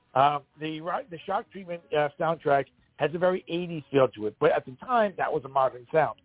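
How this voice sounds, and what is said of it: Strained, fading voice. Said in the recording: “my voice is starting to go ... start losing my voice”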